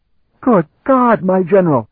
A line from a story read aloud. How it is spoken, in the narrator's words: he shrieked